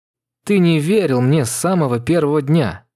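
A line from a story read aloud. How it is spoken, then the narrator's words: Broken voice. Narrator (Russian): произнесла надломленным голосом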